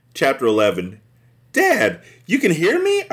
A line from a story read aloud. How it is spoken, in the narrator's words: I cried joyfully